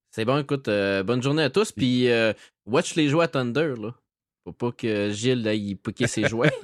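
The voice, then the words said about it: Strong Saguenay Quebec French accent. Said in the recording (French): “Il a gardé son accent. C'est le fun. Moi, j'aime ça entendre ça. ... il l'a gardé pas à peu près. ... L'accent du Saguenay”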